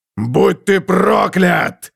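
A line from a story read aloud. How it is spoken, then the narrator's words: Roaring. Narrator (Russian): взревел он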